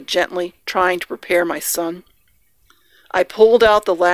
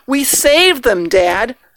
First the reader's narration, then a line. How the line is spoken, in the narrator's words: my son exclaimed